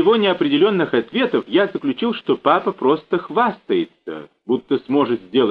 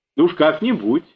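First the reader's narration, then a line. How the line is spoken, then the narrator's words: Plain. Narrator (Russian): ответил папа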